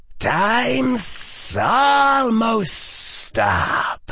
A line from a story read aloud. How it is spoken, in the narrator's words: hissed Voldemort